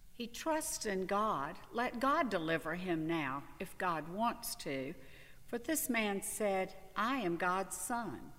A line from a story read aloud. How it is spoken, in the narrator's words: The bandits who were crucified with Jesus also taunted him in the same way